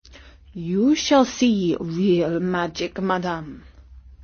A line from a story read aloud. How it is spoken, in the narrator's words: said Omar